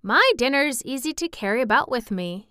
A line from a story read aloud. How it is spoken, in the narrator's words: he said